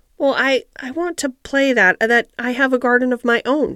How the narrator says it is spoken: she stammered

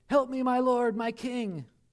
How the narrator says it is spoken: She cried out something like

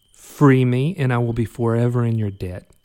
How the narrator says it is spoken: Katie said

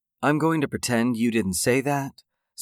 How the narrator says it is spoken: Sarah said evenly

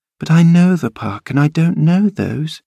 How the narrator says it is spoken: she murmured to herself

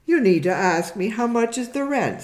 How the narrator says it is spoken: said Diana

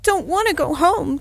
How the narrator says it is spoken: heartbroken wail

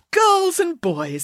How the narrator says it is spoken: said Professor Maynard brightly

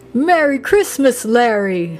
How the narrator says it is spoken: boomed Nick

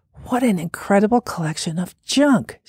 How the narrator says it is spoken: said under her breath

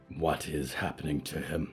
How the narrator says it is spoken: whispered

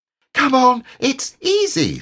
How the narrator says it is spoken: squeaked Roo

